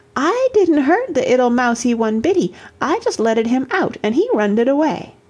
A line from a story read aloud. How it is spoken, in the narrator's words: Toddy exclaimed